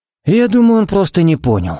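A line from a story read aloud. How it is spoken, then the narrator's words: Sigh. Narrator (Russian): вздохнул Харри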